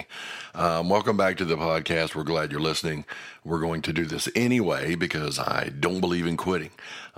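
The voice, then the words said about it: Hoarse, cracking voice. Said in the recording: “still sounding worse today ... I've been losing my voice a little bit the last couple days due to being under the weather, and there's going to be some cracking in my voice”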